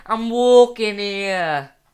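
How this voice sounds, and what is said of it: Put-on Brooklyn New York accent. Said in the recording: “It's Brooklyn. It's like it's like a New York accent.”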